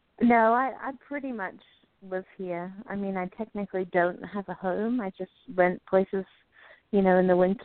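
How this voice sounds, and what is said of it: British accent from Jersey. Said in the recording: “maybe didn't pick up the accent, of course, you're from Jersey, UK”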